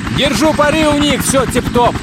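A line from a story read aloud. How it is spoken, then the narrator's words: Shouting. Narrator (Russian): Кланси действительно кричал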